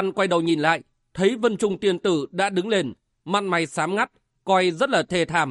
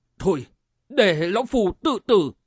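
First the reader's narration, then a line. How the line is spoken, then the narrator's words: Trembling old man's voice. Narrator (Vietnamese): Lão cất giọng run run nói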